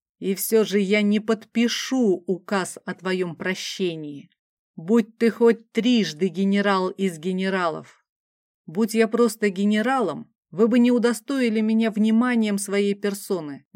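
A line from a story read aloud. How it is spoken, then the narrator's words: Hissed. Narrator (Russian): полный ненависти взгляд, конунг прошипел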